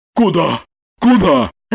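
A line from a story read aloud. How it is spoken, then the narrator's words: Whispered yell. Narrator (Russian): шепотом завопил Желтухин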